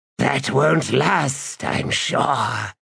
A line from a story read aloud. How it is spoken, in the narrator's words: hissed the god